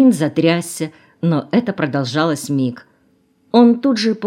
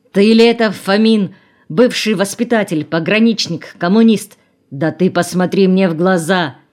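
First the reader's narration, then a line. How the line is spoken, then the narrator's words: Exasperated shout. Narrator (Russian): Краснов, не выдержав, крикнул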